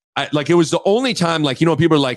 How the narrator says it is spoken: I snapped

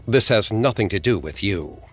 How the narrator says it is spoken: His eyes became dark and strangely lifeless as he snapped at her

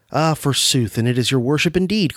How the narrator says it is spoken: cried the old dame

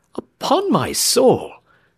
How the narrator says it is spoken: exclaimed James Playfair

